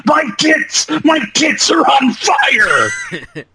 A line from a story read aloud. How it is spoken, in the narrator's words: Jen screaming